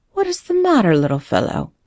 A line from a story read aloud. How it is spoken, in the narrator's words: asked the man in a kindly tone